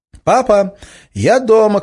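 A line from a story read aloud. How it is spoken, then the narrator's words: Shout. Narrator (Russian): крикнула Надя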